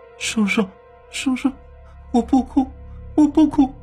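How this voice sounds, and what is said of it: Quiet frightened child's murmur. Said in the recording (Chinese): “反复小声的冲着张自强喃喃道”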